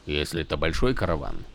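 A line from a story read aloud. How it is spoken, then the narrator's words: Grumbling. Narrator (Russian): проворчал Тек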